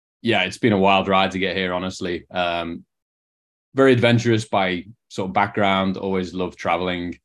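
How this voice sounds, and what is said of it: Liverpool English accent. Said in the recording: “you can probably tell from the accent, not from San Diego ... from Liverpool, England, or just outside it”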